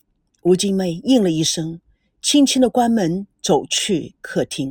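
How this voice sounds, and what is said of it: Usual voice. Nothing is said of it.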